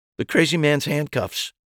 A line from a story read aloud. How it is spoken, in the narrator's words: I sputtered